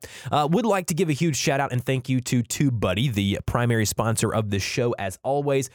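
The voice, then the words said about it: Rough, under-the-weather voice. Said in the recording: “If I sound a little rough today... I'm a little under the weather today”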